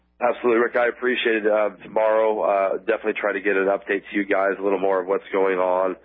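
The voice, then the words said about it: Slightly hoarse voice. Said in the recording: “My voice is a little bit hoarse. ... I've been praying a lot and speaking a lot today”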